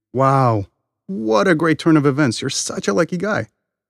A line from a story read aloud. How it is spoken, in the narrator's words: the villagers came to see the farmer and exclaimed